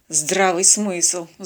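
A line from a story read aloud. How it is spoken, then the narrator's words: Sighing. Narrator (Russian): вздохнул капитан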